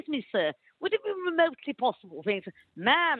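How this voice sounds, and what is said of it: Put-on posh English accent. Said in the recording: “what they want more than anything is to hear an English accent. ... I talk as if I was at Downton Abbey ... in that accent”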